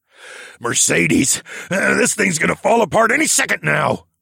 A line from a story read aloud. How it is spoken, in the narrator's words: Mel graveled out in his rough voice